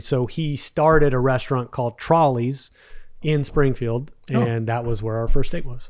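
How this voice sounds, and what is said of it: Slight Texas accent. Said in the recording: “I've got a little bit of a Texas accent and I get lazy sometimes with my words.”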